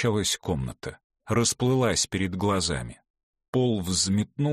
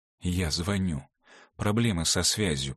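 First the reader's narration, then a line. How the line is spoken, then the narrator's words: Whispering. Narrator (Russian): прошептала Ивга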